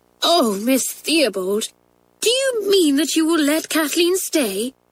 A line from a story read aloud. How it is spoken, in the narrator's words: cried Pat